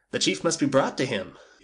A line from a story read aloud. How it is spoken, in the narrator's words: he cried